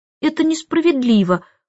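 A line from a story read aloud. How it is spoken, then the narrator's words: Whimpering. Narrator (Russian): хныкала она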